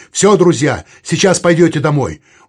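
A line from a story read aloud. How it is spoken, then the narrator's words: Cheerful shout. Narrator (Russian): Вадим весело крикнул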